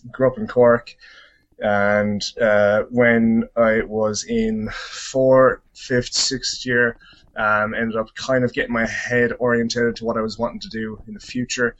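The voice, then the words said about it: Irish accent. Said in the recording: “controversial with this Irish accent”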